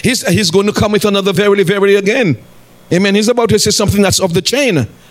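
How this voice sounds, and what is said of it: Speaking very fast. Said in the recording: “I'm talking too fast.”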